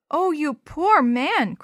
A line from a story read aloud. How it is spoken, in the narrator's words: cried the little girl